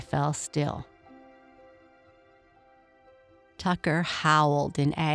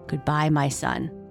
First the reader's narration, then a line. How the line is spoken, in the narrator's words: Kai said